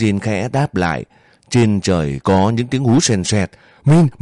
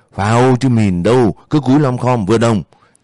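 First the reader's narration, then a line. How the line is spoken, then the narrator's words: Shouting. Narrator (Vietnamese): Tiếng của Yên hét lên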